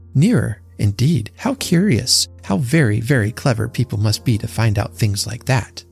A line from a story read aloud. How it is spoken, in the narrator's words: Lonely tramps murmured those words to comfort themselves